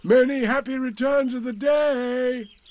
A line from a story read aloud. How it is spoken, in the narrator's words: called out, forgetting that he had said it already